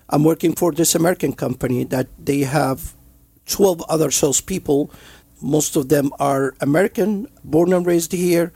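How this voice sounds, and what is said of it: Heavy non-native English accent. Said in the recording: “immigrant, have a heavy accent ... I'm the only one that immigrant and have accent”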